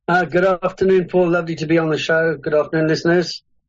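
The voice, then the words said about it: South African accent. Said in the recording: “I'm detecting South Africa in there somewhere ... a South African accent”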